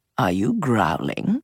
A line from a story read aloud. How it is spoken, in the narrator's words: Gigi murmured